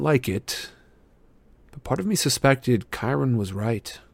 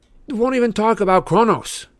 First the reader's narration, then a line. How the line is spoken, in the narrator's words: snapped